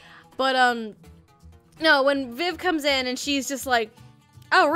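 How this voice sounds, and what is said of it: Usual voice. Nothing is said of it.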